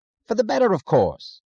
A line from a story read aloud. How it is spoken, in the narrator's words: he answered impatiently, as if it were irrelevant